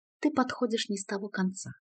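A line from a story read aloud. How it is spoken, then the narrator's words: Soft reply. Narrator (Russian): мягко ответила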